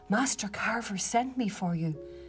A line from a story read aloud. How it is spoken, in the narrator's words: whispered to him